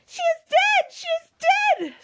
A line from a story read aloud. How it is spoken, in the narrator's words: screamed Mary